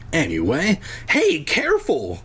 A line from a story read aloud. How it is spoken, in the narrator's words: Cole cried